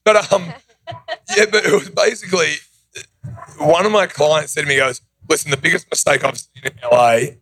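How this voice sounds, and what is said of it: Non-local foreign accent. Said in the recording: “obviously I'm not from here, hence the accent”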